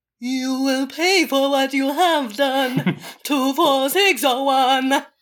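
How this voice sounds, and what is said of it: Very low imitated singing voice. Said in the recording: “it was like way, very low, very... my impression of what it sounds like”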